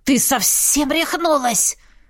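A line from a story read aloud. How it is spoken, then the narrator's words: Cat hissing from bag. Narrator (Russian): зашипел кот из котомки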